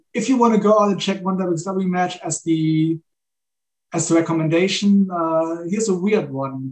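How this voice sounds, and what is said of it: Heavy non-native English accent. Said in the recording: “I'll talk with my heavy accent all the time.”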